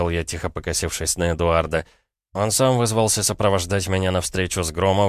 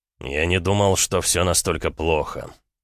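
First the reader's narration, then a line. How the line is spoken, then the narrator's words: Said grimly. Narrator (Russian): мрачно сказал Эд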